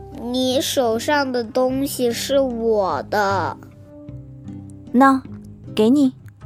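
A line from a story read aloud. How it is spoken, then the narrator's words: Little fox, slow. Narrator (Chinese): 小狐狸缓缓开口道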